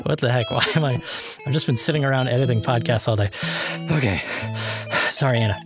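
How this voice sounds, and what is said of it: Out of breath, breathless speech. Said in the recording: “I'm so out of breath.”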